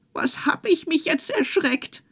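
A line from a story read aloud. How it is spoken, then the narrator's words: Woman calling out. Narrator (German): rief die Frau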